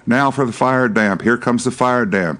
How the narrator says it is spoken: yelled the old man

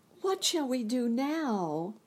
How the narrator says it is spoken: asked Dorothy sadly

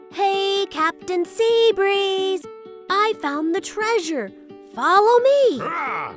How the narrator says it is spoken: He called out

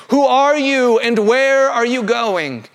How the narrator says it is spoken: the praetorium shouts out again

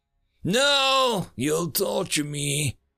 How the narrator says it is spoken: managed to croak out

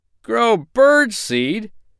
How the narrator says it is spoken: he groaned in disgust

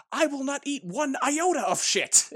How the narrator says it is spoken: you just hear in the background Michael Shannon yelling

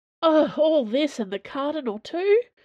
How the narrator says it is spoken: Dana groaned inwardly

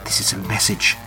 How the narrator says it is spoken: she says shakily

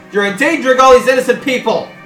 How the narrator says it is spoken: yell

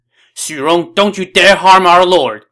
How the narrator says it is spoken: they shouted

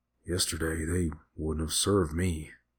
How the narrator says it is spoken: he whispered as he forced the food down

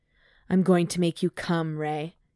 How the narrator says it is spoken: he growled

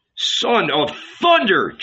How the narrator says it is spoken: Jesus cried, drawn out of himself

